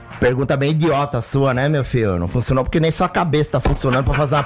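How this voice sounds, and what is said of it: Imitates another person's voice. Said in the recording (Portuguese): “ele gosta bastante quando eu faço o Muricy ... ele pede o Muricy”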